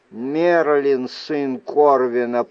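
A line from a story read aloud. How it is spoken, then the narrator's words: Through gritted teeth. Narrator (Russian): проговорил он сквозь зубы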